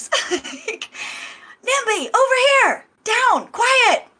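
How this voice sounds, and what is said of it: Loud whisper-shout. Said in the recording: “whisper shout, you know, like grandmas do sometimes”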